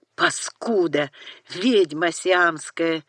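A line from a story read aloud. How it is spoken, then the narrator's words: Furious hiss. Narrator (Russian): яростно прошипел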